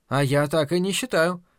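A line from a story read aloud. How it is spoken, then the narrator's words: Cheerful. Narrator (Russian): весело сказала она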